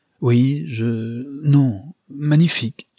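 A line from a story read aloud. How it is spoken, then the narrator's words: Stammered. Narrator (French): bégaya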